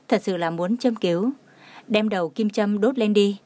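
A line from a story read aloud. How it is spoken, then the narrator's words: Gentle, smiling. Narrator (Vietnamese): Bác sĩ Lý mỉm cười, mặt hiền lành nói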